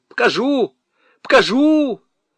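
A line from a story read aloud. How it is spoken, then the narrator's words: Bolder shrill shout. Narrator (Russian): крикнул смелее, хотя и визгливо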